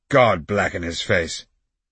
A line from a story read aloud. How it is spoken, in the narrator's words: The others laughed, and some of them exclaimed